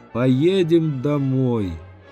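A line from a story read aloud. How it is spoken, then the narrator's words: Barely audible. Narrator (Russian): чуть слышно сказала келейнице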